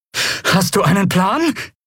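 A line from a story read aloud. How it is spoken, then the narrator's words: Breathless shout over noise. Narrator (German): rief Lien atemlos über den Lärm hinweg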